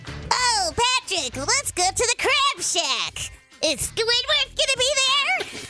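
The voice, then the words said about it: High-pitched cartoon character voice. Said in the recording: “It was like if SpongeBob took a little bit of helium before he went ... That's a convincing cartoon voice”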